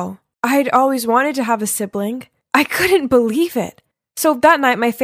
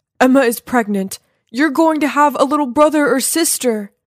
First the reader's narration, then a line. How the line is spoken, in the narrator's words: my dad excitedly running towards me saying